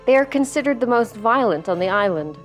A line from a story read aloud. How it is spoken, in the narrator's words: she replied